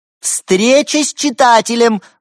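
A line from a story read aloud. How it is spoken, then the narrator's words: Excited cat shouting. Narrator (Russian): воодушевленно закричала одна из кошек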